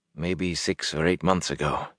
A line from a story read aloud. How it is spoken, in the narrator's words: he muttered